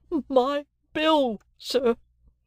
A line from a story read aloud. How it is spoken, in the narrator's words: the crying woman pleaded